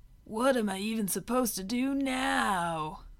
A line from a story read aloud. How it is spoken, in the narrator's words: he whimpered